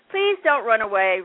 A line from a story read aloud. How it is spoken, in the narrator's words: Ralph cried